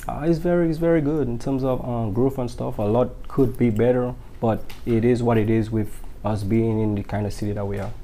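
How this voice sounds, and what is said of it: Deep, strong Caribbean accent. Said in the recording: “I hear a deep accent... You still have a very, very strong accent.”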